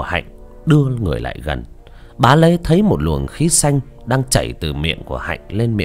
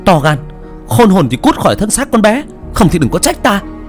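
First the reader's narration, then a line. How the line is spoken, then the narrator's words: Angry shout. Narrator (Vietnamese): Cô Ngọc mắt trợn tròn mà quát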